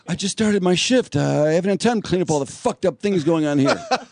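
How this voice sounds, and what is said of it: Fake accent. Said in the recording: “Fake accent.”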